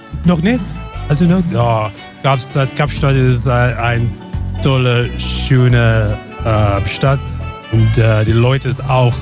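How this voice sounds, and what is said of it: Slight foreign accent in German. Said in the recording (German): “Der hat so leichten Dialekt.”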